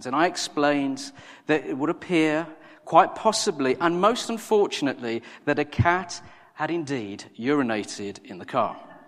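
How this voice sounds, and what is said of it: Imitates a posh English vicar's accent. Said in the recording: “my best Nicky Gumbel impersonation ... a vicar in central London with the most wonderful English accent”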